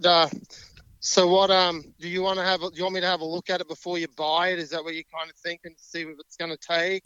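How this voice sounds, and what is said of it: Very thick regional accent. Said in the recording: “I can hardly understand you. That accent's so thick.”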